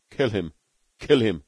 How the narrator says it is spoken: gasped Beetle

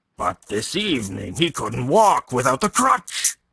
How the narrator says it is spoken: he exclaimed

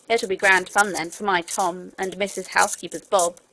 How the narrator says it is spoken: said the cook

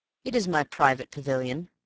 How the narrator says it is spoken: said Raffles

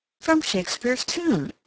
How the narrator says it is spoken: exclaimed Mrs

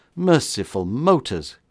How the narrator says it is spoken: cried the horrified man

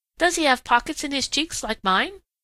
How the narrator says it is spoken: asked Striped Chipmunk eagerly

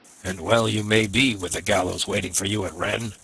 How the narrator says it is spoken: growled the ferryman

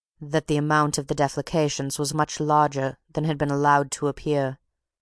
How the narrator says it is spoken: replied Mr

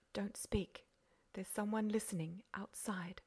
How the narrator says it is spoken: Beautrelet whispered

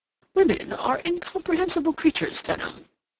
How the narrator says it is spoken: he then exclaimed

